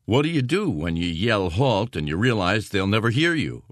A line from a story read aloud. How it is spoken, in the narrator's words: O'Keefe asked Welling